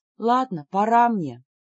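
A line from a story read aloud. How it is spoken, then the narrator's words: Sighing. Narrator (Russian): вздохнула я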